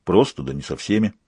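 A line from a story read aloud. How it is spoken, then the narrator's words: Grumbled. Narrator (Russian): буркнул он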